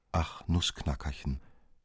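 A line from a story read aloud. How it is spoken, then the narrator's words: Very soft. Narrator (German): sprach sie sehr leise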